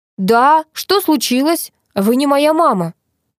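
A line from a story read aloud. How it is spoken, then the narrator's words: Yelling. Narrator (Russian): завопил парень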